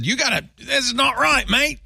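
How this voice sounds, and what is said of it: Bad put-on Australian accent. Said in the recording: “Excellent Australian accent... It's terrible. It's the worst.”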